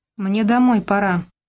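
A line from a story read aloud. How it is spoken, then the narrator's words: Muffled, hollow reply. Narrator (Russian): глухо ответил Робка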